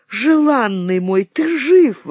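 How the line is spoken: Joyful exclamation. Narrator (Russian): воскликнула радостно Настасья

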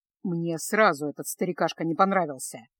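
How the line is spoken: Grumbling. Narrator (Russian): проворчал Кайл

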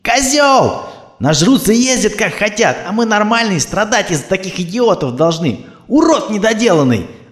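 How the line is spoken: Screaming after someone. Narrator (Russian): орала она вслед

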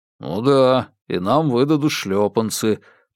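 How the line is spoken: Grumbling. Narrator (Russian): проворчал Бабкин

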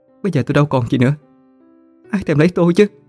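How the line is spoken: Humble pleading. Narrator (Vietnamese): cô vẫn hạ mình nài nỉ hắn ta

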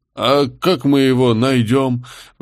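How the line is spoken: Sighing. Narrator (Russian): вздохнул контейнер

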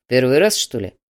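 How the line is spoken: Displeased growl. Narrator (Russian): недовольно зарычал Слановский

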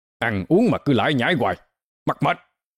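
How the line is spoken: Loud angry scolding. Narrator (Vietnamese): Ông nạt lớn

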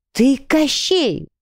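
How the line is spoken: Horrified exclamation. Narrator (Russian): воскликнула в ужасе

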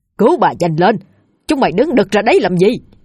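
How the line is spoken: Urgent barked order. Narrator (Vietnamese): Ông Chánh quát lên, thúc giục đám gia nhân

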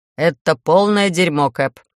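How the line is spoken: First mate's report. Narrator (Russian): отрапортовал первый помощник

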